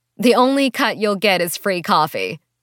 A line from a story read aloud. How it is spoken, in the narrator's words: Elaine laughed